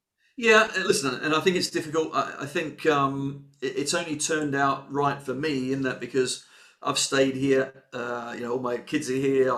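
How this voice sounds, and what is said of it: Slight Australian accent. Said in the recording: “even with a slight Australian accent, obviously”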